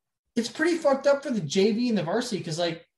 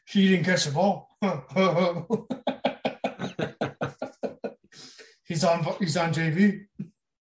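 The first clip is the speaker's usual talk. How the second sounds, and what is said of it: Imitates another person's voice. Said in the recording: “This is my Coach Cook impersonation. ... Yeah, it's pretty spot on.”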